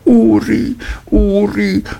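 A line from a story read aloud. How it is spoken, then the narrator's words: Mother calls out. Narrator (German): rief die Mutter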